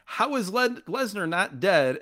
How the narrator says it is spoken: Taz screams and says

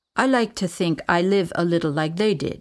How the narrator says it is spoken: he said

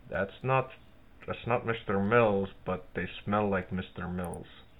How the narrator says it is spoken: under my breath is like

